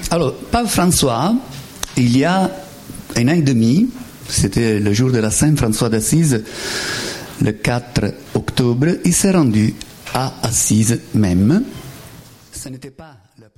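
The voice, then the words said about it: Strong Italian accent. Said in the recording (French): “j'ai un accent italien très marqué”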